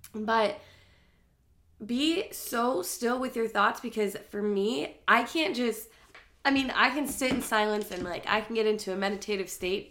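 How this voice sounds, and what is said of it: Nasal, congested voice from cold. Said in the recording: “I sound nasally, I've been having the worst cold of my whole life the last week”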